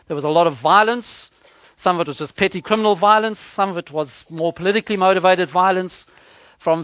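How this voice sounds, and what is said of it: South African English accent. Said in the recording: “I think it's clear from my accent... when we were still living in South Africa”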